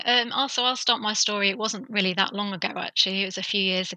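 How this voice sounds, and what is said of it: British English accent. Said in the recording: “you are from the UK ... my very Queen's English ... British the Queen's accent? English.”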